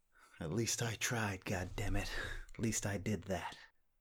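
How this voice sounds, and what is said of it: Weak Jack Nicholson impression. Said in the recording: “your best Jack Nicholson impression ... That's just a sort of American accent.”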